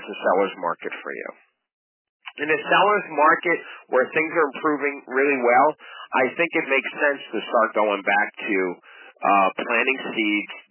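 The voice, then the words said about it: Hoarse, fading voice. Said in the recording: “I'm losing my voice,”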